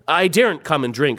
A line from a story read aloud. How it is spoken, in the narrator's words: said Jill